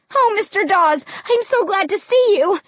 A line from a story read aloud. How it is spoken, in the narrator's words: I cried happily